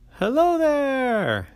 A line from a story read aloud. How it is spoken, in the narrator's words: the grapes yelled